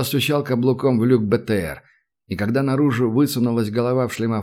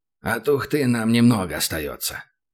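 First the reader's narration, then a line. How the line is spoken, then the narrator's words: Mutter. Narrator (Russian): пробормотал Хасан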